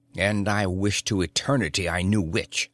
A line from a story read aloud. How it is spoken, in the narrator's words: said the guesser harshly